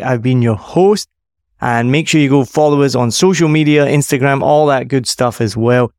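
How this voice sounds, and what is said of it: Scottish accent. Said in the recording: “the Scottish accent, that was bikes, B-I-K-E-S, not bakes”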